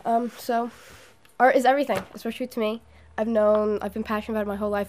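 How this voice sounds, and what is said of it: Hoarse, failing voice. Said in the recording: “I'm kind of losing my voice at the moment”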